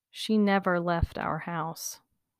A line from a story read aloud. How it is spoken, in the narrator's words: said very slowly